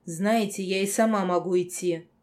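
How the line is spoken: Angry statement. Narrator (Russian): зло сообщила

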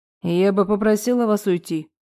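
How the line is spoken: Commanding tone. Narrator (Russian): раздалось приказным тоном

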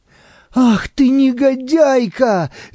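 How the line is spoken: Furious shout. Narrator (Russian): закричала я в бешенстве

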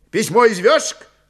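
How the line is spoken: Shouted. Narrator (Russian): крикнул Рябчиков

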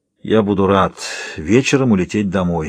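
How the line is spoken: Tired. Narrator (Russian): говорит устало

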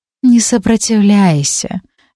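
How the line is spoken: Witch's lazy reply. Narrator (Russian): лениво отозвалась ведьма

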